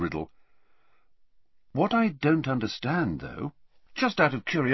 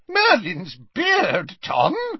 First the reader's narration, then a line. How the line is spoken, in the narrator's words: yelped Slughorn